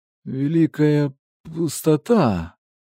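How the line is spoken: Wheezing. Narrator (Russian): просипел Винченцо, пытаясь подняться

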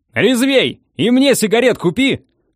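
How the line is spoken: Yelled, trainee. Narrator (Russian): заорал стажер Панченко

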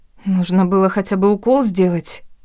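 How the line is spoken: Frightened babbling. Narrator (Russian): пролепетала испуганно

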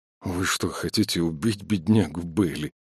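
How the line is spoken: Mutter. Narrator (Russian): пробормотал один из них

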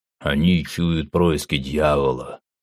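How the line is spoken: Grumble. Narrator (Russian): пробурчал рыжебородый

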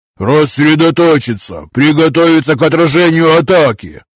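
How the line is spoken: Booming voice near ear. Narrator (Russian): прогремел возле уха зычный голос напарника

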